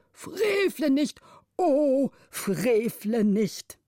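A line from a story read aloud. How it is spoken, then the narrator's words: Tearful old guardian calling. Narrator (German): der älteste Vormund mit Tränen auf den speckigen Wangen rief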